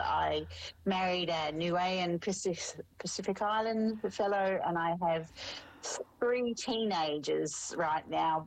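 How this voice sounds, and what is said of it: Australian accent. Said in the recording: “I am Australian, if you haven't picked up the twang just yet”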